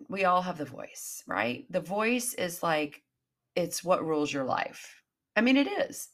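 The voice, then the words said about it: Congested voice, as with a cold. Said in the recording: “me with a really bad cold, like I feel right now”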